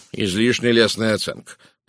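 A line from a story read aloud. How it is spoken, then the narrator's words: Grumbling. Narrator (Russian): проворчал Пуаро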